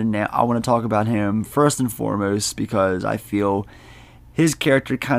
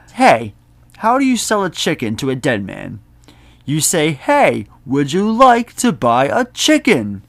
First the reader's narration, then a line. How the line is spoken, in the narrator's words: he just snaps